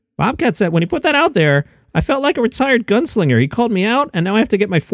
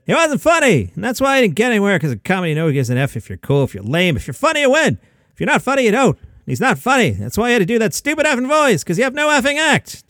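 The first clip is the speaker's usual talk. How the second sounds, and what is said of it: Angry Jerry Seinfeld impression. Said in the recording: “angry Jerry Seinfeld, half-ass impression”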